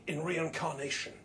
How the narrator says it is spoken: says Harry

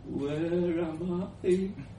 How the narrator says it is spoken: slurred

